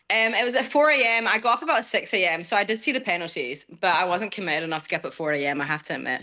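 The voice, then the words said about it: Mixed Scottish accent. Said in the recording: “I grew up in Scotland. That's the accent. ... you get a mix of accents”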